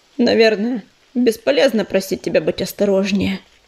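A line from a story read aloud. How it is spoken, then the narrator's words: Gloomy question. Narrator (Russian): мрачно спросил уголек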